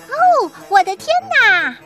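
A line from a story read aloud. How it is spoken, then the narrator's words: Shouting. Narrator (Chinese): 小羊艾玛高喊了一声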